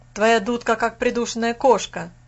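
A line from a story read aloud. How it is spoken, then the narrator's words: Shouted. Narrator (Russian): крикнул Фас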